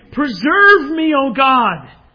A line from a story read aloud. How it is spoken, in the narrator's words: In a moment of great desperation, he cried out to God again